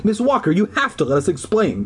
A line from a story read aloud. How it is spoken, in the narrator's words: I cried shrilly